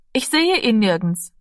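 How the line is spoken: Plain. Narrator (German): sagte sie drinnend

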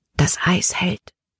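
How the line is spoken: Whisper. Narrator (German): flüsterte Caleb

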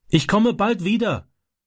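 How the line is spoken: Calling through car window. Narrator (German): rief er durchs Autofenster

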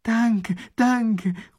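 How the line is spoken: Enthusiastic shout. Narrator (German): ruft der Eskimo begeistert

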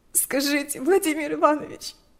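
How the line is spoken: Sobbing. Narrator (Russian): вздрагивала от рыданий Лика

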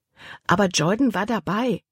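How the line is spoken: Plain. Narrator (German): antwortete Libby

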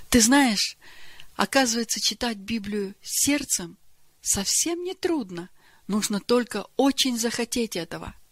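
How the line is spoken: Joyful. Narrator (Russian): Верочка радостно сказала

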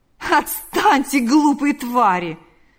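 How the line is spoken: Laughing. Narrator (Russian): сказал, рассмеявшись, Лукьян

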